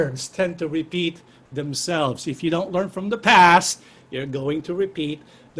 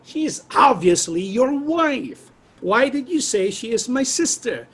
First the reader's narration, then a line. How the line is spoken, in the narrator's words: Abimelech exclaimed